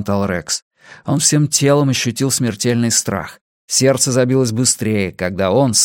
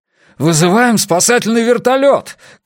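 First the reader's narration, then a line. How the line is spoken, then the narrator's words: Panicked shout. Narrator (Russian): крикнул Джеймс, и его маленькие глаза потемнели от паники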